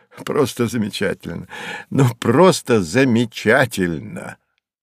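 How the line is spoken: Laughing repetition. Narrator (Russian): Савва повторяя сквозь смех

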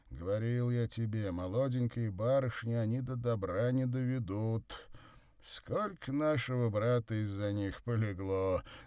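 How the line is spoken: Ringing laughter. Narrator (Russian): Заливисто засмеялся Савва

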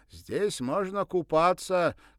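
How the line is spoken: Shouting after. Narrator (Russian): крикнул он вслед

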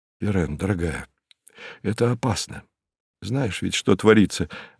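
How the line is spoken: Worried muttering. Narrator (Russian): обеспокоенно пробормотал он

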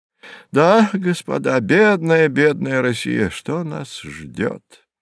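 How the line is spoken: Sad exclamation. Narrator (Russian): грустно воскликнул профессор Мановский

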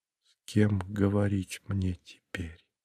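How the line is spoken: Whispered. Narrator (Russian): шепотом повторила Александра

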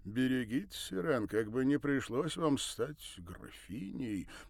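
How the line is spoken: Ambiguous, possibly mocking tone. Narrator (Russian): продолжил он с такой интонацией, что и непонятно, то ли посочувствовал, то ли порадовался, то ли посмеялся

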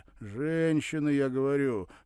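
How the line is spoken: Wry snort. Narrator (Russian): хмыкнул приятель

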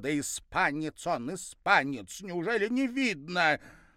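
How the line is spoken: Loud, clear answer. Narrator (Russian): я ответила громко и отчетливо

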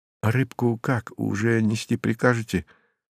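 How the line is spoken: Quiet fawning waiter. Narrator (Russian): заискивающим голосом тихо поинтересовался круглолицый официант

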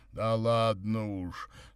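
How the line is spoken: Embarrassed deep voice. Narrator (Russian): смущенно пробасил Горький

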